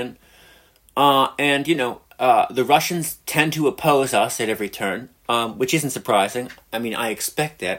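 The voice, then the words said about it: American accent. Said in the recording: “If you can't tell by the accent, I'm an American.”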